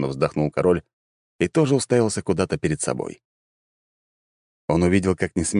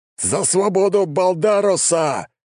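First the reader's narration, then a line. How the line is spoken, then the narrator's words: Battle yell. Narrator (Russian): завопил герой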